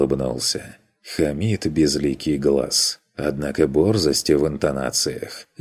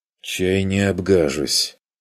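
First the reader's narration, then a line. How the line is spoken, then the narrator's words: Cautious half-voiced mutter. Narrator (Russian): буркнул я, на всякий случай, в полголоса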